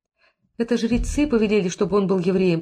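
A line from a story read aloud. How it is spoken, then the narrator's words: Sobbing babble. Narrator (Russian): пролепетала Сара, рыдая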